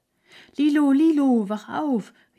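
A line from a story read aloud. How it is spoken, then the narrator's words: Calling out. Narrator (German): rief Hertha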